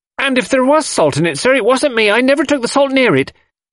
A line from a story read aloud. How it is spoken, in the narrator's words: Annie had been growing redder and redder in the face, and now she blurted out unexpectedly